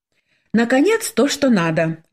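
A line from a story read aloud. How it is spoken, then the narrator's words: Joyful exclamation. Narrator (Russian): радостно воскликнула Светлана, когда платье было сшито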